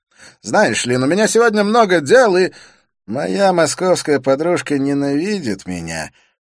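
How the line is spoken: Hopeless tone. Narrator (Russian): произнес Олег безнадежным тоном

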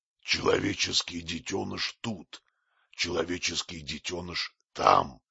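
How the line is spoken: Growling while drinking. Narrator (Russian): прорычал, продолжая пить

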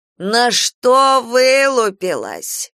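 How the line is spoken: Shouting. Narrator (Russian): кричала Софья

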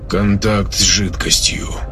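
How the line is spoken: Flat mechanical voice. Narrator (Russian): мертвым голосом констатировал автоматический информатор

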